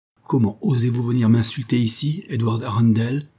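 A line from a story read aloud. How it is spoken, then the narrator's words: Angry exclamation. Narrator (French): s'écria avec colère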